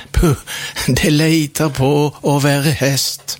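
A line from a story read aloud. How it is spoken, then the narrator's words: Smiling. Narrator (Norwegian): sa smilende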